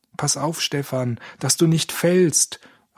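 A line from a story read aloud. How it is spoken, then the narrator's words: Calling out. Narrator (German): rief Georg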